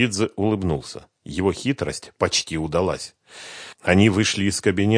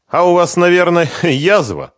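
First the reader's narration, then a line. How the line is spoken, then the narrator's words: Laughing. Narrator (Russian): рассмеялся Чхеидзе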